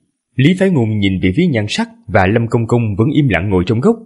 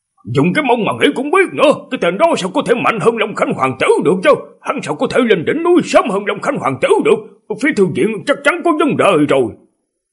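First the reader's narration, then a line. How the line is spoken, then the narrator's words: Scornful angry shout. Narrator (Vietnamese): Nhan Sắc trợn mắt mà quát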